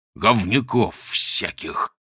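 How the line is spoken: Through gritted teeth. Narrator (Russian): сквозь зубы выговорил Модест

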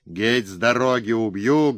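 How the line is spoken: Enraged booming bass. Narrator (Russian): гремел гулким басом озверевший капрал

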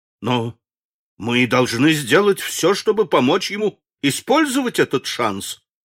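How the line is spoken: Exclaimed. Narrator (Russian): воскликнул судья Скотт

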